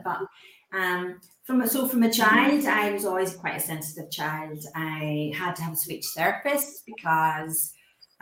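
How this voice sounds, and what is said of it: Slight Irish accent. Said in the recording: “I'm from Ireland. ... Sounds a bit Irish, doesn't it?”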